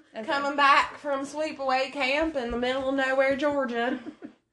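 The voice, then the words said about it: Put-on Southern American accent. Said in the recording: “fall into your Southern accent ... turn it on a little bit ... Your Southern is camp. ... that's a great performance”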